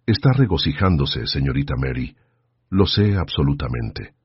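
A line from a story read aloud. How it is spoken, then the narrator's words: Quiet voice. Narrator (Spanish): dijo en voz baja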